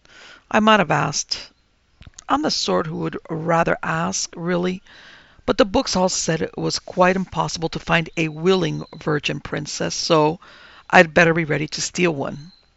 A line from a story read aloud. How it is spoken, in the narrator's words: he sighed